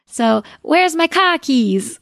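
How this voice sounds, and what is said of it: Put-on Boston accent, dropped R's. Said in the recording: “Boston accent ... Not so great at the accent ... that's a pretty good accent”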